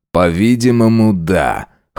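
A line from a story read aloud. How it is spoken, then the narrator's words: Wry snort. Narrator (Russian): хмыкнул он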